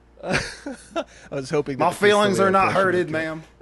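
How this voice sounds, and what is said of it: Gruff imitation of another person's voice. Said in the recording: “terrible impression, but it's so perfect ... it doesn't sound anything like him ... that voice he does ... it's like a weird Ray Romano ... like a gruff Ray Romano ... Ray Romano after gets his sinuses cleared”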